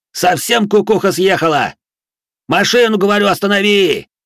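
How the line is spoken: Exasperated yelling. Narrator (Russian): Все же не выдержал и заорал я

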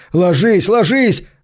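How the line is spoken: Policeman yelling. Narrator (Russian): заорал полисмен

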